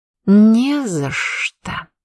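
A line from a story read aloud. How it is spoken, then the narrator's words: Hissed, smiling. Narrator (Russian): прошипела, и я могла поклясться, что она улыбалась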